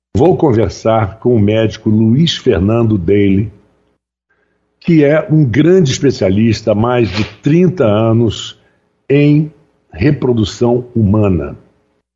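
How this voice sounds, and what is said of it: Hoarse, rough voice. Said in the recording (Portuguese): “minha voz está meio, meio avariada com a gripe ... mesmo com a sua rouquidão”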